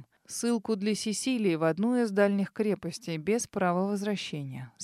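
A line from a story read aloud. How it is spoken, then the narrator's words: Calm reply. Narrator (Russian): спокойно ответил Себастьян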